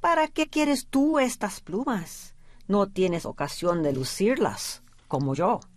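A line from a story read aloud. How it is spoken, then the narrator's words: Plain. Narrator (Spanish): le dijo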